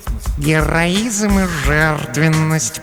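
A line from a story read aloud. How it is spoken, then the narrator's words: Purring. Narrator (Russian): промурлыкала Глая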